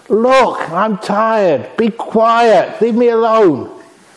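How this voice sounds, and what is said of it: Raised, irritated voice. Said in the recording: “Me raising my voice?”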